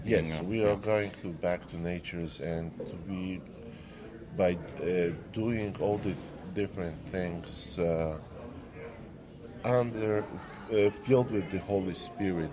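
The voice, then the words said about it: Slight Polish accent. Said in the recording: “I hear a little bit of an accent ... I'm Polish. ... So Polish accent.”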